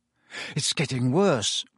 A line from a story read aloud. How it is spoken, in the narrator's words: Harry muttered